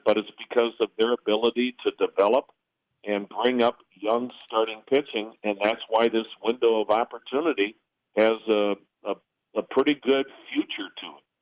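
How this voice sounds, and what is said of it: Smooth, polished broadcaster voice. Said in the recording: “they've got a wonderful radio voice ... Sounded great”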